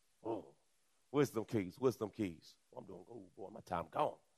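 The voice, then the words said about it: Put-on country accent. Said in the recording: “I'm working on my language. Doesn't it sound good, babe? Sound country?”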